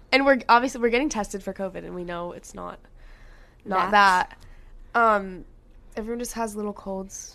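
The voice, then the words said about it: Hoarse voice with a cold. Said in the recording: “I don't know if you guys can hear, but I have a little cold. My voice is a little gone.”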